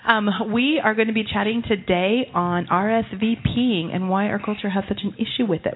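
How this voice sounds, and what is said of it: Hoarse, creaky voice. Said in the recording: “Apparently, I'm starting to lose my voice. ... allergies. ... the 11-year-old voice creak.”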